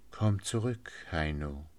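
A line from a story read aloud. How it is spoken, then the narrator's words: Pleading. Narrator (German): bat flehend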